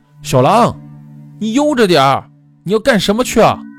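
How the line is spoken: Shouting from behind. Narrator (Chinese): 后面胖子还在喊

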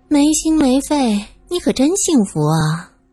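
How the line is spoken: Sighing. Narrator (Chinese): 苏三叹道

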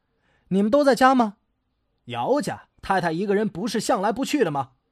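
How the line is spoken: Surprised, loud question. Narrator (Chinese): 他便很诧异，大声的问

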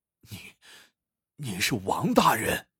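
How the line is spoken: Frightened murmur. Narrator (Chinese): 那艄公面色惨白，眼中露出惊恐之色，喃喃道

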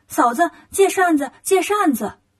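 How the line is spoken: Clamoring. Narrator (Chinese): 孙悟空 开始嚷嚷

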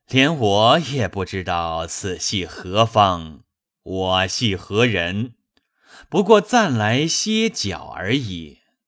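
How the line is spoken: Laughing. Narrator (Chinese): 道士笑道

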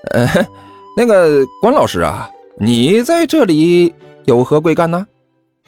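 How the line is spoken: Awkward forced laugh. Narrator (Chinese): 齐剑也是干笑了一声，说道

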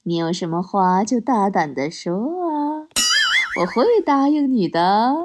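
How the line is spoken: Smiling. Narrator (Chinese): 我笑着对她说

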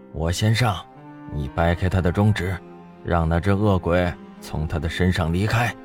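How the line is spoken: Calm, flat. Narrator (Chinese): 张天志淡淡道

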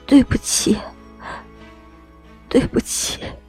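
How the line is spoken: Choked sobbing, repeated. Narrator (Chinese): 一遍遍哽咽的重复

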